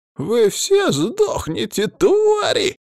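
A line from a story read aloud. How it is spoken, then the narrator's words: Squeaky threat. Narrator (Russian): пропищал он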